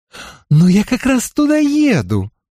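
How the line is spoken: Exclaiming. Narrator (Russian): воскликнула Констанца

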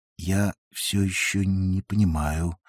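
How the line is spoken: Drawled. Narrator (Russian): протянул барбер

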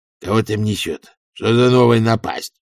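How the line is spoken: Growled. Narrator (Russian): прорычал он

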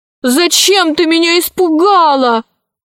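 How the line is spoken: Shouted at her. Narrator (Russian): закричала на нее наследница

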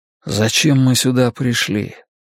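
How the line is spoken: Muttered. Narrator (Russian): пробормотал я

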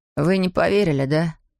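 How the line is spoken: Sad question. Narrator (Russian): печально спросил Эйден

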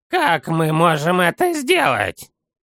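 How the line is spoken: Skeptical snort. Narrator (Russian): хмыкнул Санделла

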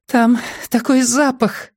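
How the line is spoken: Strained, nauseated. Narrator (Russian): выдавила Аа, когда рвота поутихла

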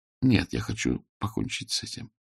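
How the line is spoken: Quiet. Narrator (Russian): негромко сказала она

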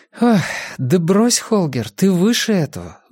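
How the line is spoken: Sighing. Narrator (Russian): вздохнула Мия

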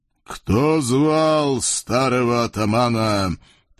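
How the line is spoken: Booming impressive ghostly voice. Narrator (Russian): призрак прогудел голосом впечатляющим

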